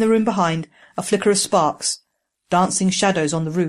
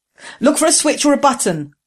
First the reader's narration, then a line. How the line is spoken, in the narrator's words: Jessam shouted to Ging